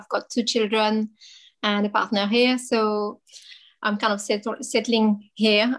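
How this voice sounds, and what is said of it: French accent. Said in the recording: “I'm French, as you probably hear from my accent”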